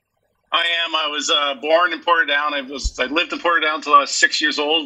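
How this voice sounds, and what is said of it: Canadian accent. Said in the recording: “we can detect from your accent that you're purely Canadian”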